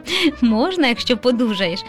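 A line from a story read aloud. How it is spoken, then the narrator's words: Laughing father. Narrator (Ukrainian): засміявся тато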